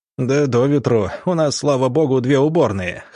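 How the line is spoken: Chuckling. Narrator (Russian): хохотнул комендант

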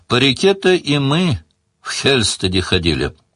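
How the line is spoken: Sighing older woman. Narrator (Russian): вздохнула тетка Чари

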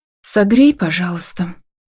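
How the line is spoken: Quiet but firm request. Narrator (Russian): прошу негромко, но твердо

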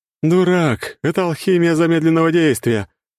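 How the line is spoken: Laughing while running. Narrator (Russian): хохотнула Надежда, которая уже бежала к ним

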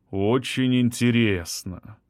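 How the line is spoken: Drawled. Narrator (Russian): протянул адвокат

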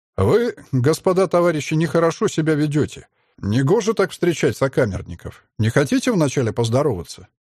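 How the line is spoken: Calm. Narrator (Russian): спокойно произнес

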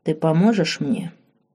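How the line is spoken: Calm repeated question. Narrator (Russian): спокойно повторил вопрос Марк

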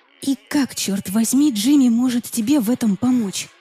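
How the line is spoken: Irritated whisper. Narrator (Russian): Раздраженно прошептала я

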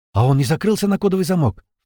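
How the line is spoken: Frightened girl's question. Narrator (Russian): испуганно спросила девушка

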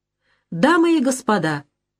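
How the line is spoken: Agitated, excited. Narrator (Russian): говорит она взволнованно

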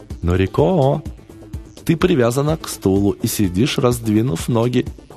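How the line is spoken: Cheerful. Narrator (Russian): весело заметил он

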